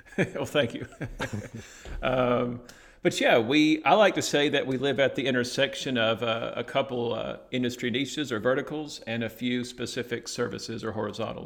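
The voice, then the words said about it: Southern US Alabama accent. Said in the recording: “my Southern U.S. Alabama accent”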